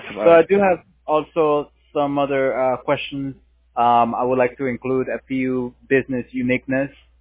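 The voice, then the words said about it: Slight foreign accent. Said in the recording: “I got a little accent here.”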